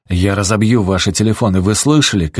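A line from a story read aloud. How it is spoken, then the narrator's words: Impatient shout. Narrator (Russian): крикнул я, теряя терпение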